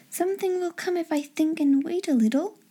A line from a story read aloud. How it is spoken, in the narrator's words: in a soft, expectant voice